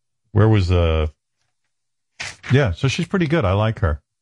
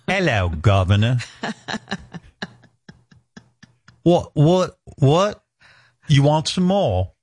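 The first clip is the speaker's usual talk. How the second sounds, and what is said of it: Put-on British accent. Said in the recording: “Pretty convincing. ... Not that good. ... I can even sing with a British accent.”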